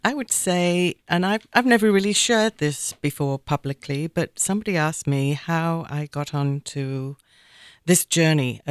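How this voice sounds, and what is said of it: Manchester English accent, Australian-tinged. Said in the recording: “Everybody always wonders about my accent because I took myself off to live in Australia and New Zealand in my 20s. So my whole accent is a little morphed.”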